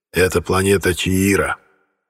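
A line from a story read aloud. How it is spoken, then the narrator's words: Quiet. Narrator (Russian): тихо произнес Сорг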